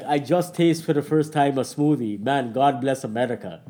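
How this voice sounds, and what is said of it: Imitates another person's voice and accent. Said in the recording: “Great accent as well.”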